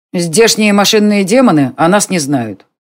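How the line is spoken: Plain. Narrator (Russian): сказал Конор

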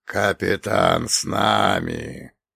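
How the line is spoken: Creaky voice of dead man. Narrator (Russian): проскрипел уже знакомый Черномору мертвец

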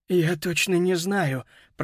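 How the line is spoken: Moan. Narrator (Russian): простонал Бен

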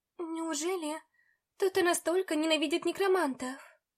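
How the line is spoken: Sad question. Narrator (Russian): грустно спросила я

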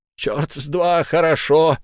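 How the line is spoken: Yelling. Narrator (Russian): заорал Филд

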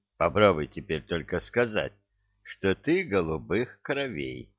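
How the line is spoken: Devil muttering. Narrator (Russian): пробормотал дьявол

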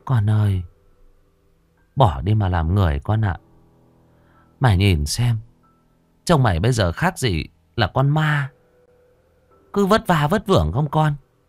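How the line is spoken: Old woman's sigh. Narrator (Vietnamese): Bà thở dài

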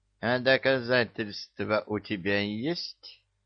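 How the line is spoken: Ingratiating old woman. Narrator (Russian): вкрадчиво спросила старушка

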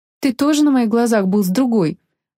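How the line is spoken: Snapping retort. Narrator (Russian): огрызнулась девушка

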